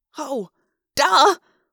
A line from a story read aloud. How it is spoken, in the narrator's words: I gasped